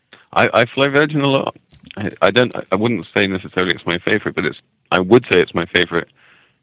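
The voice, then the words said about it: Slight British accent. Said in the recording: “you have a slight accent. I believe that's UK.”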